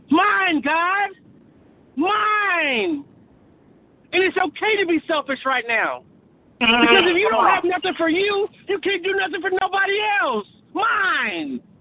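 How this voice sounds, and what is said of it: Excited yelling. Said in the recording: “you know I'm excited if I'm yelling”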